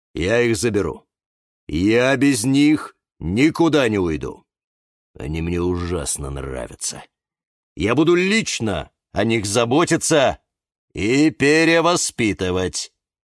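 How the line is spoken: Sudden melting tone. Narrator (Russian): Вдруг сказал полицейский таким тоном, как будто вот-вот растает

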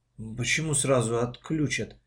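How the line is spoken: Mumbling. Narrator (Russian): пробормотала мама

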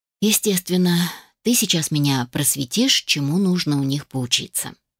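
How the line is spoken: Sighing grumble. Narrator (Russian): Невольно вздохнула и проворчала

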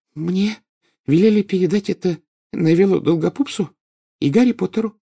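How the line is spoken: Shy stammering babble. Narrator (Russian): пролепетала она, запинаясь

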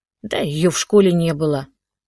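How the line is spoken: Curt mutter. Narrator (Russian): буркнула Катя

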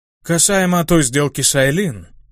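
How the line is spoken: Goblin's growl. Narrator (Russian): прорычал гоблин

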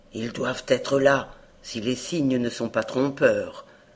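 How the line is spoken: Murmured, hunter. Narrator (French): murmura le chasseur

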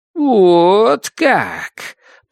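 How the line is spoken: Drawling. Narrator (Russian): протянула Амитав

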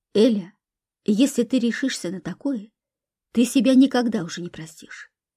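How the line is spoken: Quiet. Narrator (Russian): тихо сказала она

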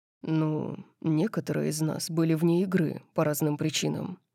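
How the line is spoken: Muttered. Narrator (Russian): пробормотал он

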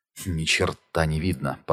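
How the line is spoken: Muttered. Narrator (Russian): пробормотала Джулия

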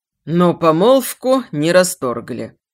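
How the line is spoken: Tired. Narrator (Russian): устало сказал Бекшеев

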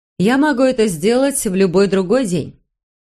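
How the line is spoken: Even voice. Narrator (Russian): ровным голосом проговорила Джейн

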